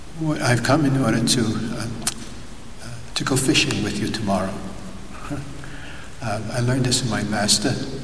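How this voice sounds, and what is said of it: Brooklyn New York accent. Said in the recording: “I come from a strange place called Brooklyn in New York. You might recognize my little accent sometimes. It's a little bit different.”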